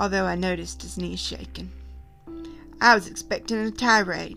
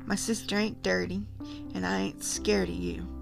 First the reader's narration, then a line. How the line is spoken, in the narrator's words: Jim said quietly